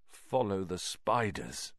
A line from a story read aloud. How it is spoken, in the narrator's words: said Ron weakly